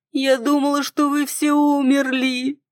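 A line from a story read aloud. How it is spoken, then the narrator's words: Wailing, losing control. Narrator (Russian): взвыла я, не в силах больше сдерживаться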